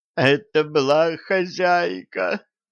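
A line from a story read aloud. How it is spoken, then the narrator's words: Frightened moaning. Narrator (Russian): простонали бесы, испуганно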